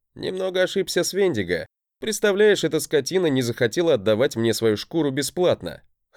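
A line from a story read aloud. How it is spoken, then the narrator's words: Short laugh. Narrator (Russian): хохотнул я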